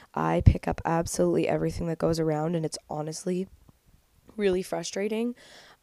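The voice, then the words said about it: Nasal, congested voice. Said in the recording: “sorry for the sound of my voice ... know I sound super nasally and a little bit gross, but I have a cold”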